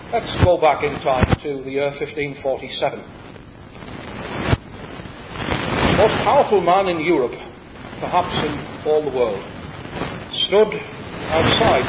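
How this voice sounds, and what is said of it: County Durham English accent. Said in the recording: “my accent betrays me as a son of County Durham”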